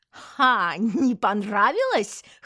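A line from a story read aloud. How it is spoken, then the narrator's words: Mocking chuckle. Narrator (Russian): хохотнула Динара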